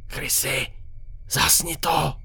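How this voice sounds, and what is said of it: Frightened whisper. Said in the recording (Czech): “Zašeptal jsem vyděšeně.”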